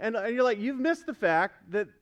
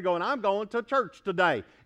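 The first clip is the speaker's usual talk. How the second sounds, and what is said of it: Put-on Southern accent. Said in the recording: “I don't know why the southern accent comes out, but it just does.”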